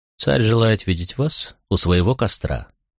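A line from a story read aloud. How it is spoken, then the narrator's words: Calm, foreign language. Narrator (Russian): спокойно произнес управитель на своем языке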